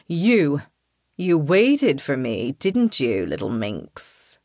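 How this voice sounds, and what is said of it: Deep male character voice. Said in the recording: “a deep voice”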